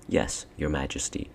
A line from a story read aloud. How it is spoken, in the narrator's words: said Edmund